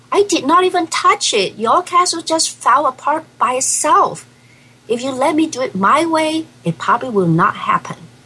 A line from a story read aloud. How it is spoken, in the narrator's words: Davy yells back